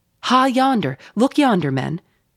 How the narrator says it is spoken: cried a foreboding voice

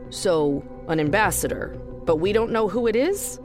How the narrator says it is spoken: Johnny said

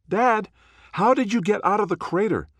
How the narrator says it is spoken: the face on the screen yells

